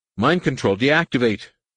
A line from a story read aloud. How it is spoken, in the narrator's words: On the military channel, Gavin called frantically